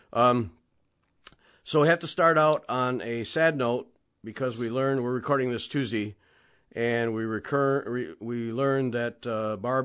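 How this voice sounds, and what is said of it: Wrecked, sick-sounding voice. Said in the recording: “you can tell by my voice, I'm not getting healthier ... my voice is wrecked for weeks”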